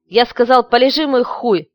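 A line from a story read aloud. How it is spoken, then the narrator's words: Boy barking harshly. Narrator (Russian): рявкнул мальчик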